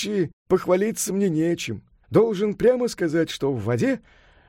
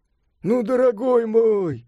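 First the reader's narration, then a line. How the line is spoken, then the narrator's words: Laughing. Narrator (Russian): смеясь сказал Сунь-Укун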